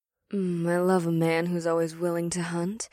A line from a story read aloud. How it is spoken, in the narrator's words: Ash purred